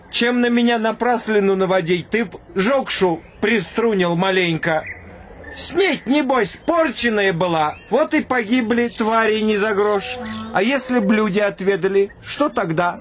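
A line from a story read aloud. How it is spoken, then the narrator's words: Laughing chieftain. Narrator (Russian): Засмеялся атаман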